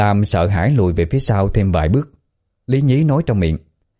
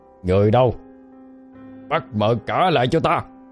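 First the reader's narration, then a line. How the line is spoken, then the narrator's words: Angry command. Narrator (Vietnamese): Cậu phóng đôi mắt giận dữ nhìn Miên Lam, rồi ra lệnh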